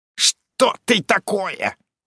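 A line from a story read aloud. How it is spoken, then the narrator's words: Hoarse wheeze. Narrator (Russian): захрипел он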